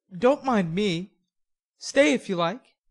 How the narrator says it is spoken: the boy laughed and said pleasantly, though he looked a little startled

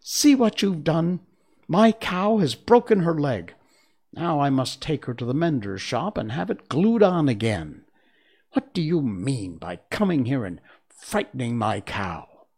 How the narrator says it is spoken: cried the milkmaid angrily

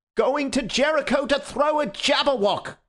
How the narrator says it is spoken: cried the other

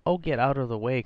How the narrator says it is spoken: cried Warner almost good-humouredly

